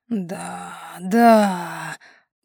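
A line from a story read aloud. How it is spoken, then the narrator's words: Moaning. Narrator (Russian): простонал Максим Денисович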